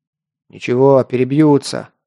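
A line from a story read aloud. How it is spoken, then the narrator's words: Gruff mutter. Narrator (Russian): буркнул я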